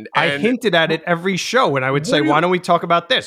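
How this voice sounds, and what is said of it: New Jersey accent. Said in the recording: “that's my Jersey accent”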